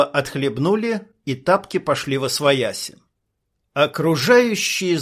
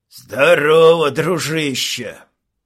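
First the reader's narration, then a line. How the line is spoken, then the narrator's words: Deep bass, big brute. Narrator (Russian): Низким тоном пробасил громила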